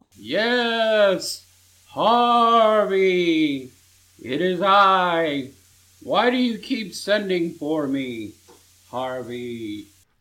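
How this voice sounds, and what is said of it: Sad, wailing woman's voice. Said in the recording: “Her voice was sad. Almost like a wail.”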